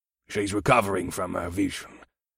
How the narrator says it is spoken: Zuag replied in his gruff voice

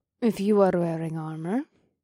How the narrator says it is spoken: Mahini said in a cautious tone

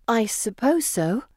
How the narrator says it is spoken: say uneasily

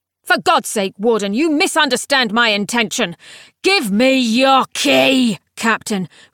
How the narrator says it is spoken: roared the scion of the sixth

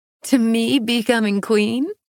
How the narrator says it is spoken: I laughed

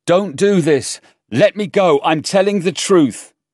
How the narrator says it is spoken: He shouted

